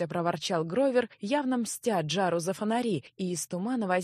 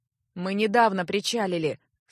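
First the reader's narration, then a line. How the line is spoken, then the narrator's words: Dry, displeased reply. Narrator (Russian): сухо и недовольно отозвался второй невидимка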